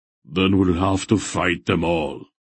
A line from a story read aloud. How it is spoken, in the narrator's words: Barak said grimly